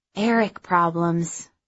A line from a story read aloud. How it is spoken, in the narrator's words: she sighed